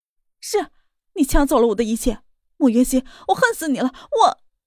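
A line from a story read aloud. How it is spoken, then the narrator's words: Furious roar. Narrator (Chinese): 莫雨涵吼道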